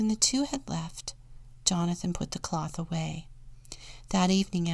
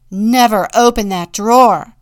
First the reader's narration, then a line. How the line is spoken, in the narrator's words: the woodcarver said harshly